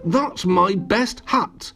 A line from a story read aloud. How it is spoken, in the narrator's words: cried Little Miss Splendid